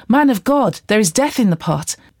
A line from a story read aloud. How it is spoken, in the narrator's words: they cried out